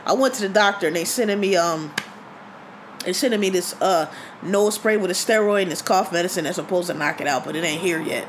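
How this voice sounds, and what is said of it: Strained, failing voice from bronchitis. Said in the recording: “My voice is gonna start giving out here. I've been talking a whole lot... This bronchitis is killing me.”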